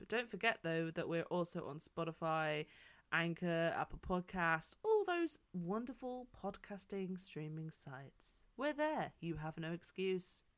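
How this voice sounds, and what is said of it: News presenter style delivery. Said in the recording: “Why do I sound like a news presenter?”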